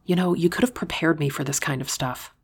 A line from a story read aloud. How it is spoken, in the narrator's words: I whispered